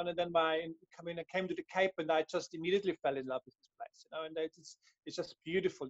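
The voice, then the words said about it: Austrian accent. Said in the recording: “maybe here in the accent, I'm from Europe, I'm from Austria”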